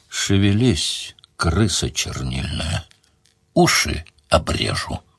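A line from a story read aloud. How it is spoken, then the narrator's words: Menacing. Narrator (Russian): Сварог грозно сказал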